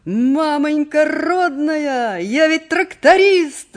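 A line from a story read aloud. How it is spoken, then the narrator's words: Shouting. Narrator (Russian): закричал он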